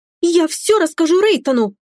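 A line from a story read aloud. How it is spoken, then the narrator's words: Childish capricious exclamation. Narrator (Russian): Все же воскликнула она, по-детски капризно топнув ногой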